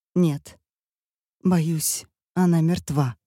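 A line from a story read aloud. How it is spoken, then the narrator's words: Trembling voice. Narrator (Russian): говорит она дрожащим голосом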